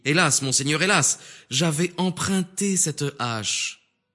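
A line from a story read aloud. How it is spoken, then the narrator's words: Exclaimed. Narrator (French): Aussitôt il s'écria et dit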